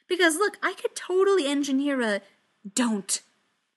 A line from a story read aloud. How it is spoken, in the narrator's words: Steve snaps, all the humor draining out of his face